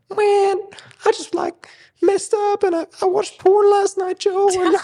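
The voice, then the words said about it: Childish teenage kid voice. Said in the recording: “It's a little kiddie accent.”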